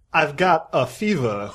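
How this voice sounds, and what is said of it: Christopher Walken impression. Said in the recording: “impersonations of this actor ... Of course, Christopher Walken.”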